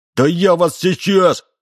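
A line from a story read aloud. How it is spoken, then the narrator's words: Shouting. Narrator (Russian): закричал он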